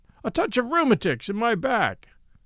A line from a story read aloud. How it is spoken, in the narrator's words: said the sergeant in a loud voice, as if he wanted some third person to hear us